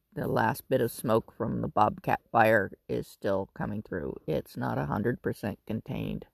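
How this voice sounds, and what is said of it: Raspy, slightly cracking voice. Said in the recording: “My voice is a little raspy ... my voice will kind of cracks, and occasionally I have a coughing fit”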